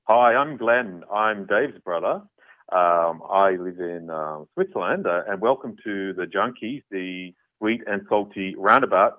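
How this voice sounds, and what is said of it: Slight foreign accent. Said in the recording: “He's got a bit of an accent, has he? ... It's not as bad as you're making out.”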